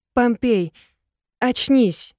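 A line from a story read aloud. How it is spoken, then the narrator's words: Almost plaintive. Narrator (Russian): Практически жалобно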